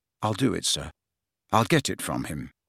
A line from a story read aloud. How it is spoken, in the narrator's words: he said earnestly